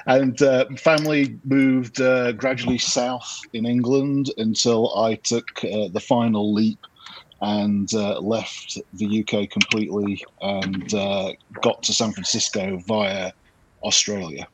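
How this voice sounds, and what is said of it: Mixed northern English, Australian, American accent. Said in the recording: “a bit of a weird accent ... north of England, a little Australian, that still hangs around ... 26 years in the US, so it's got a lot of other bits in there as well”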